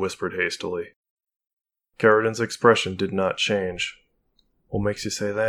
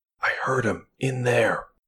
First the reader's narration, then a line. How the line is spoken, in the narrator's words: Marie whispered